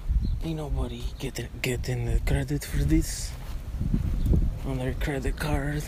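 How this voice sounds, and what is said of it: Cartoon character voice impression. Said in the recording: “my Despicable Me guy impression”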